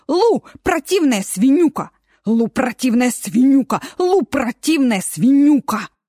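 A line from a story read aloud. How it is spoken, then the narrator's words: Taunting chant. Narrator (Russian): Дина придумывала какую-нибудь изобретательную, незаурядную и обидную кричалку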